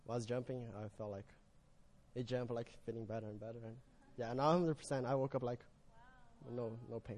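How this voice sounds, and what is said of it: Strong accent. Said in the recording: “You got to love that accent, right? You guys, do we need subtitles?”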